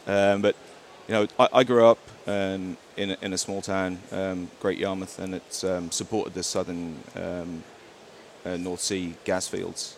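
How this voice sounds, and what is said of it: English accent, sometimes mistaken for Australian. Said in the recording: “I grew up in the UK. ... that's my accent. I get mistaken for Australian quite a bit, but I am English.”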